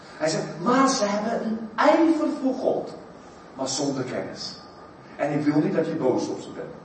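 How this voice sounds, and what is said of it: South African accent in Dutch. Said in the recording (Dutch): “mijn rare accent ... Zuid-Afrika”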